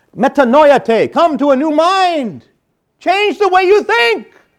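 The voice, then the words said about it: Shouting. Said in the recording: “That's why I'm shouting.”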